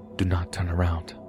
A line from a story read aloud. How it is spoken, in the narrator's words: she looks me in the eyes and whispers